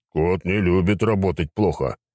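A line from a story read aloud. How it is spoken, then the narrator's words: Grumbling. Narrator (Russian): проворчал Аларак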